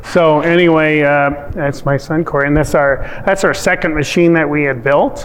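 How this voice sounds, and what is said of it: Norwegian-influenced Upper Midwest accent. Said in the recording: “You probably can tell with the Norwegian accent”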